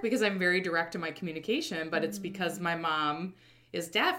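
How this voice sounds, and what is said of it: Midwestern American accent. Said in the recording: “I have this accent ... I'm totally have a Midwestern accent”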